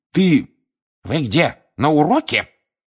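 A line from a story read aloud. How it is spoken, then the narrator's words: Sharp scolding shout. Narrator (Russian): прикрикнула профессор Грабли-Дёрк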